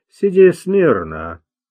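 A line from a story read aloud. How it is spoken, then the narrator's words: Calm command. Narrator (Russian): спокойно приказал он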